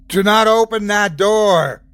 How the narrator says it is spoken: I shouted, voice laden with authority

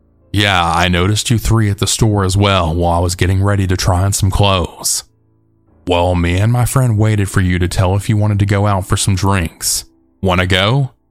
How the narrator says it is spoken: he said

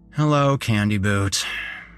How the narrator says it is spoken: I said with a sigh

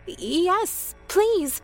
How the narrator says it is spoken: I stuttered

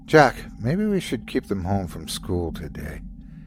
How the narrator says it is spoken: Daisy said weakly

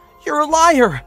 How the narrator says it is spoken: she screamed

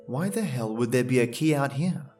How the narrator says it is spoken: I mumbled under my breath

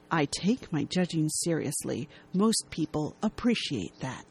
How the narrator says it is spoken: He gravely responds in a hushed tone

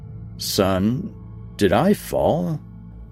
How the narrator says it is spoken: I stammered

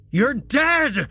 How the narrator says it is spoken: Jesse shouted

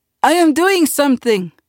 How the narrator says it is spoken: Uncle cried

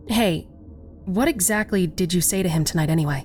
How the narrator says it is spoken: I asked

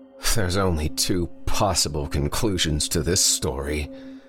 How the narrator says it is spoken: Greg slurred at them through the window

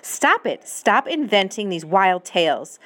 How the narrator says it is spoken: snapped her mother

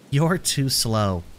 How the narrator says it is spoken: she chuckles

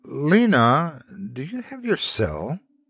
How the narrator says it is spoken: I asked hesitantly

